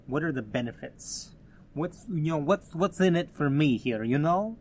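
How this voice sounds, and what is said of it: Put-on New York Italian accent. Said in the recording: “That was my best New York Italian accent that I could come up with.”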